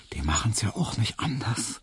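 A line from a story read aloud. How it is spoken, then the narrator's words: Smiling whisper. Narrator (German): da flüsterte ihm Hedwig lächelnd zu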